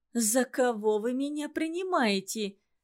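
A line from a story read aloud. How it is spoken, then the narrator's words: Upset sincere exclamation. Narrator (Russian): воскликнула Пава Романовна с искренним огорчением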